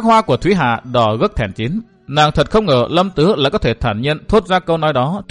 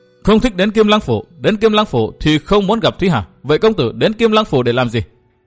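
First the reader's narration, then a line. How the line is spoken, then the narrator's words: Woman, restrained anger. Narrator (Vietnamese): Nàng cố kiềm sự tức giận hỏi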